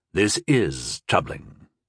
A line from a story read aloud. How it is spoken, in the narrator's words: murmured Sayake